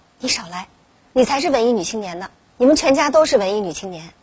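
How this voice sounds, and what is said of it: Quiet muttering. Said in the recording (Chinese): “在心里小声嘀咕说”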